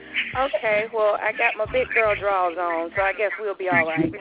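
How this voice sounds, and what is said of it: Southern US drawl. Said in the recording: “Please forgive my southern drawl. ... I'm from Birmingham, Alabama. So, yes, I'm southern girl to the bone”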